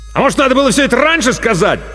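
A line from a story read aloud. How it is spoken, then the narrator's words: Angry bark from hallway. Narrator (Russian): зло рявкнул Артамонов из коридора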